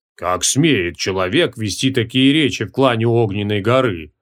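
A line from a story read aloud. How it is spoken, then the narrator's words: Sullen grumble. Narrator (Russian): угрюмо проворчал Лампирас Вишапи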